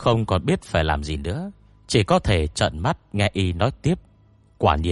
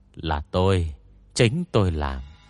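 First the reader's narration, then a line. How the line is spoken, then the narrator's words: Sighing. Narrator (Vietnamese): Ngô Nhân Địch thở dài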